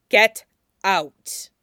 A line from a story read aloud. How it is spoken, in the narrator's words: Alistair says again in that same level, implacable voice